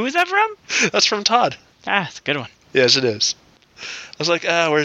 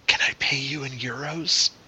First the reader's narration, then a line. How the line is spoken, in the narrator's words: he leans forward and whispers into her ear